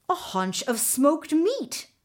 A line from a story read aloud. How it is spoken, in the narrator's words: Mingo exclaimed